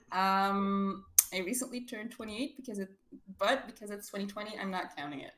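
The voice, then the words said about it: Belgian accent. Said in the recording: “I'm from Belgium, which you can tell by my very lovely yeehaw accent.”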